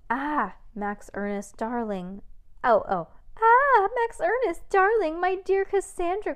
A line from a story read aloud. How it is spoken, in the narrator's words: cried Miss Mavius